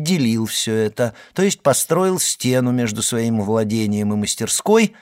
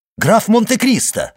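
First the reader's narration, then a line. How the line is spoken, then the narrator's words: Exclaiming. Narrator (Russian): воскликнул Моррель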